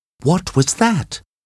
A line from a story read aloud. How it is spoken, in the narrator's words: asked Kathy nervously